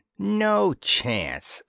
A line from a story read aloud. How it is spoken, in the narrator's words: snarled Dispro